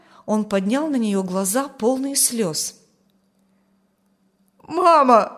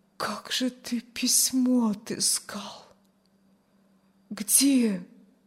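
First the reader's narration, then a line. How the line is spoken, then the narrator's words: Barely audible. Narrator (Russian): Чуть слышно вымолвила Аня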